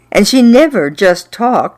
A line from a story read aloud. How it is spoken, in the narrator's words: she bellowed